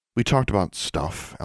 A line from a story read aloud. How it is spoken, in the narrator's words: Alexandra said, lowering her voice